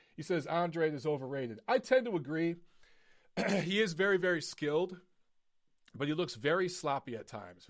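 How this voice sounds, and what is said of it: Strained, hoarse voice. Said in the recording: “I'm losing my voice tonight ... I screamed too much at the beginning of the show ... I am freaking losing my voice”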